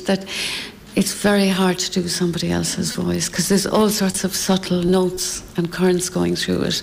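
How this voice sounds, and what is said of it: Irish Cork accent. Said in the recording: “my Cork accent”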